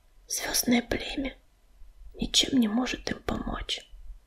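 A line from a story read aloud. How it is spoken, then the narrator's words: Whisper. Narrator (Russian): прошептала она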